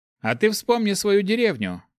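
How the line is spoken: Smirking paladin. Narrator (Russian): хмыкнул паладин

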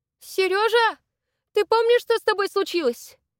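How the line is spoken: Babbling from another room. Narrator (Russian): Залепетала из комнаты

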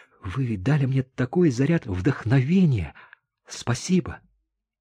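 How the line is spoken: Delighted whisper. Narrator (Russian): Даша прошептала, сияя от восторга

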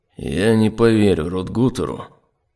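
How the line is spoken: Grim inner thought. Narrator (Russian): мрачно подумал

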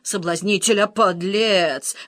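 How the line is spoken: Howled. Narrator (Russian): взвыл Жорж

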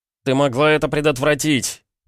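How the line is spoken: Shout. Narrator (Russian): прокричал я

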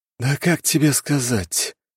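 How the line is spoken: Hesitant, uncertain. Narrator (Russian): Призрак как-то неуверенно мялся

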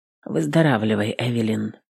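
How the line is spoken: Quiet farewell. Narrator (Russian): тихо проговорил служитель на прощание

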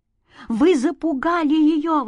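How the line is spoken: Exclamation. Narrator (Russian): воскликнула мама

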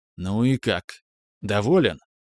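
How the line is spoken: Asked in undertone. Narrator (Russian): спросил вполголоса

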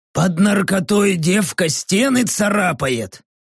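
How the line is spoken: Hoarse thoughtful croak. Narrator (Russian): задумчиво прохрипел орк

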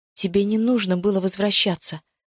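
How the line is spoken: Breathed out. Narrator (Russian): выдохнула

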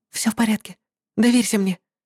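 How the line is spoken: Whisper. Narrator (Russian): прошептала ей Кейра

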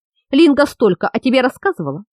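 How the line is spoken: Laughing. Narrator (Russian): засмеялась колдунья

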